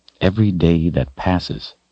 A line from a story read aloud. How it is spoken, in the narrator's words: he said quietly at last